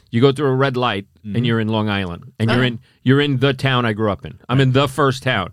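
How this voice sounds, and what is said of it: Long Island New York accent. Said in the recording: “you kind of have a Boston lilt ... it's a Long Island accent which has been enhanced, most likely from being a New York City cop”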